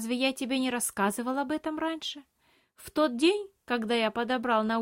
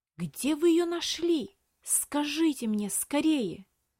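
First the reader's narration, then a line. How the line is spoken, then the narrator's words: Strained, restrained whisper. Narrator (Russian): С трудом сдерживая, прошептал мальчик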